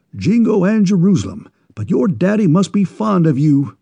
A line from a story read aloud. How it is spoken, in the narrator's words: exclaimed the enthusiastic New Englander